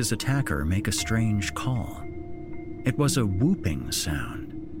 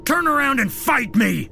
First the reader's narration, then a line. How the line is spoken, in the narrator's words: David yelled out with as much bravado as he could muster